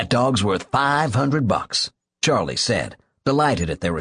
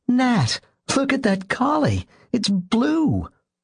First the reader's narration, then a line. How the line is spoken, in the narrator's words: she said excitedly